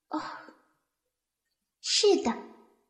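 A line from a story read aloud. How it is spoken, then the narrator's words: Weary, sighing, soft. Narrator (Chinese): 他勉强振作了一下，深深叹了口气，声音很轻的回答说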